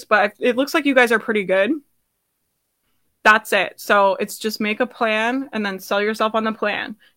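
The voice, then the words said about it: Strained, fading hoarse voice. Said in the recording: “I'm losing my voice,”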